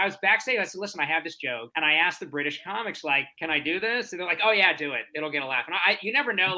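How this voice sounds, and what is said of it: Usual voice. Nothing is said of it.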